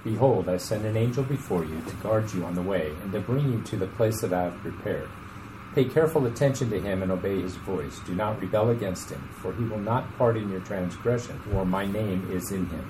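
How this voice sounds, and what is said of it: Polished radio announcer voice. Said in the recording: “Don't you love that radio voice?”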